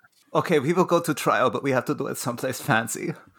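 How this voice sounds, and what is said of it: Put-on foreign accent. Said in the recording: “I'm allowed to do that accent, okay. It's the one I can do, okay. It's the one I can kind of do.”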